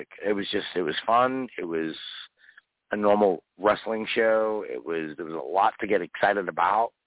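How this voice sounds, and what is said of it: Strained, hoarse voice. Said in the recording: “tonight I'm losing my voice talking to you because I was that enthusiastic”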